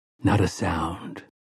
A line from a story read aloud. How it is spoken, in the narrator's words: Roland of Gilead whispered in her ear